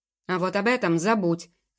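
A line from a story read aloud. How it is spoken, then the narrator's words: Sudden bark. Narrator (Russian): рявкнул домоправитель, сразу прекратив ухмыляться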